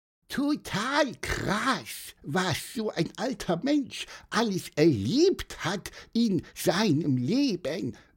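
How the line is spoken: Squeaky piping voice. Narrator (German): piepste Pieper

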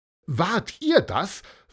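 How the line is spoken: Excited question. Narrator (German): fragte Eva Maria aufgeregt

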